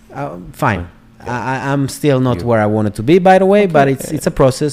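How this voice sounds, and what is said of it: Israeli accent in English. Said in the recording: “you just have an accent ... there's a flavor to it ... Israeli”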